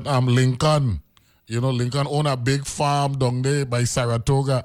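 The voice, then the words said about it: Imitated Dominican accent. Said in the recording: “that beautiful Dominican twang”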